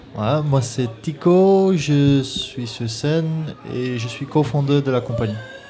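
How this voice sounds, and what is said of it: Slight Dutch accent in French. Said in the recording (French): “je sens une petite pointe d'accent ... je suis des Pays-Bas ... Néerlandais”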